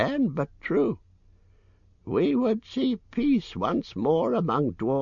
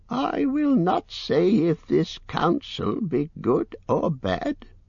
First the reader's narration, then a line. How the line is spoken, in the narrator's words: croaked Roach